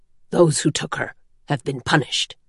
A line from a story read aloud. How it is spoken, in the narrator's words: Vasher said in his quiet, gruff voice